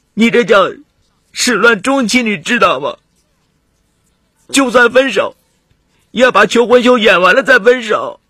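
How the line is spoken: Aggrieved crying. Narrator (Chinese): 马菲尼委屈极了，哭着说

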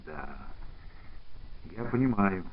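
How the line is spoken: Quiet. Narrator (Russian): негромко сказал Кружинин

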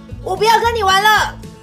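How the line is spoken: Angry loud shout. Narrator (Chinese): 大毛熊好生气，他大声的喊

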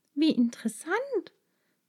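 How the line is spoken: Happy little girl exclaiming. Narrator (German): rief die kleine Maja glücklich

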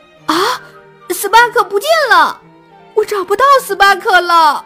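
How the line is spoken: Panicked shouting. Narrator (Chinese): 他大喊

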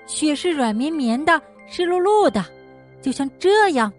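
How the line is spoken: Loud shout. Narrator (Chinese): 小鼹鼠大声喊道

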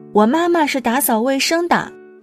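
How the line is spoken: Loud. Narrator (Chinese): 他大声说

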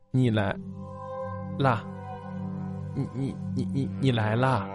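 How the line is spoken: Man muttering. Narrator (Chinese): 穿着白大褂的男人嘴里嘟囔着

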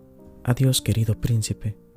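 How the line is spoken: Murmured. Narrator (Spanish): murmuró

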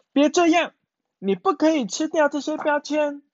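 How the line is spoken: Shouting. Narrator (Chinese): 鼹鼠大喊

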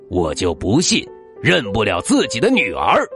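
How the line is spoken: Angry. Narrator (Chinese): 他怒气冲冲的 说

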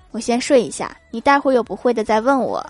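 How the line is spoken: Flat, indifferent. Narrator (Chinese): 淡淡的说了一句

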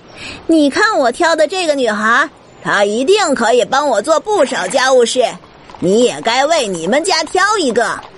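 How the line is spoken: Small woman shouting. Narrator (Chinese): 杜莎，那个瘦小的太太对另一个瘦小的太太大叫

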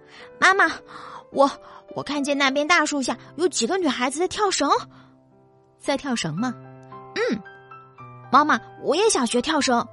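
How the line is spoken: Breathless panting child. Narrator (Chinese): 这只名叫秋子的小兔子……喘着粗气对兔妈妈说

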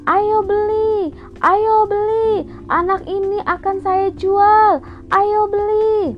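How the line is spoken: Kidnapper shouting. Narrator (Indonesian): Penculik itu berteriak berkata

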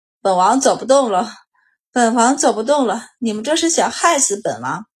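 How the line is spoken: Breathless muttering. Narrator (Chinese): 恭王气都有些喘不匀了，不住的念叨

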